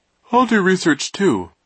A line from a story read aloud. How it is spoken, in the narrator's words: Klaus said, yawning